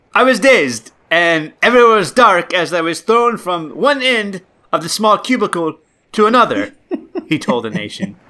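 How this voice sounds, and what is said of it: Poor put-on Nigerian accent, sounds Jamaican. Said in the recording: “You're going to have to do this in a Nigerian accent. ... That was, like, kind of Jamaican. I don't know what that was. ... That was awful ... Straight up awful.”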